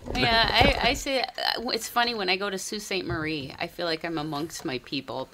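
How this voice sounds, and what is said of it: Noticeable regional North American accent. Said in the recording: “I can hear it... It's just coming through more and more... It's just busting out now. I'm waiting for you to say, don't you know?”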